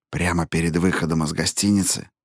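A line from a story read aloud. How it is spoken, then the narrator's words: Whispering, continuing. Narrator (Russian): шепотом продолжал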